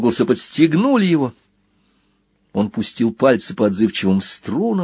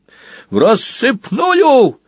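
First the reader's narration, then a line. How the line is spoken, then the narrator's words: Urgent bark. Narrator (Russian): рявкнул Сквил в самый последний момент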